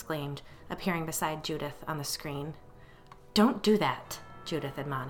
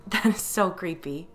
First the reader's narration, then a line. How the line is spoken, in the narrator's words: I said through my laughter